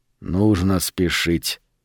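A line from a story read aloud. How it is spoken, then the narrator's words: Quiet. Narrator (Russian): тихо сказал Сильвера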